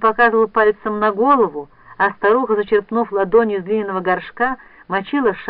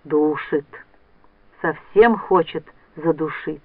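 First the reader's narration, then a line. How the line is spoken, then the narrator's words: Old man whispering. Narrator (Russian): Старик шептал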